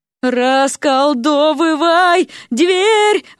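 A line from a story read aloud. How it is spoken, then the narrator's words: Yelling between jumps. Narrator (Russian): вопила Вася в промежутках между прыжками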